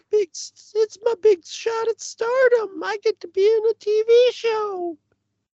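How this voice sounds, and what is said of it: Character voice with slight Southern accent. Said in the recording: “I'm putting a little southern accent on it”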